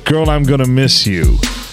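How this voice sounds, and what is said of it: Old-timey sensual singing voice. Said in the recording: “He just talking to his old black guy voice. ... in your old sensual voice. ... In your old black timey voice.”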